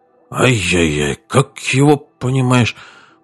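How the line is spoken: Muttering. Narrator (Russian): бормотал Ахмед

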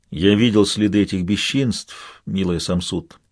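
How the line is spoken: Plain. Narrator (Russian): сказал мой жених

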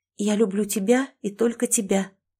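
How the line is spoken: Loud whisper. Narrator (Russian): зашептала я довольно громко, чтобы Ричард тоже слышал это

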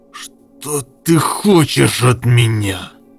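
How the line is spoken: Weak, exhausted hiss. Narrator (Russian): прошипел Гендер, чувствуя, как его покидают последние силы

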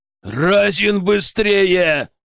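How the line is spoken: Growl. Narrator (Russian): прорычал Глебов

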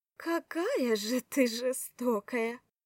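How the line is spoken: Giggling, teasing. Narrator (Russian): хихикнула душечка

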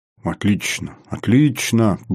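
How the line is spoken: Muttering. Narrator (Russian): бормотал Поликарпов

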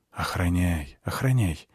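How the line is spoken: Whisper. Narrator (Russian): прошептал я

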